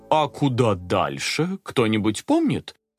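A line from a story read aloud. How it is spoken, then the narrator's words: Bewildered father asking. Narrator (Russian): растерянно спросил папа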